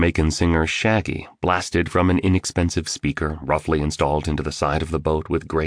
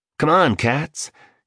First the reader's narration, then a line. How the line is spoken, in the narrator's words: he said excitedly